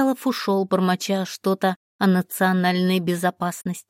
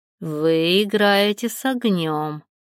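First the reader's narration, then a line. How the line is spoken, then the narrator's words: Through gritted teeth. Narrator (Russian): процедил он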